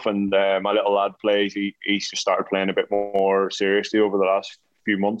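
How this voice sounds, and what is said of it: Strong regional English accent, hard to understand. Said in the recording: “I love the accent ... it's really hard to understand ... taking the piss out of my accent”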